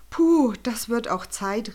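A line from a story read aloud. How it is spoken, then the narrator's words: Calling out. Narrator (German): rief Schascha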